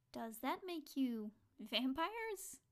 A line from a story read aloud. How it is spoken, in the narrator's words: Josie asked, laughing a little